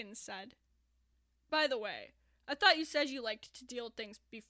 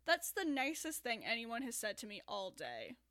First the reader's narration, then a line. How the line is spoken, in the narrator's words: Neil said dryly